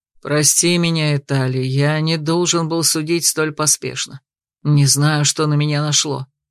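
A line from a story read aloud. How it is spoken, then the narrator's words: Guilty sigh. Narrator (Russian): Дракон вздохнул и виновато произнес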